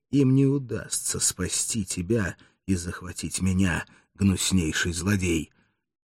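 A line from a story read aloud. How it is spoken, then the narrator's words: Muffled furious voice. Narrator (Russian): Арториджи произнес глухим яростным голосом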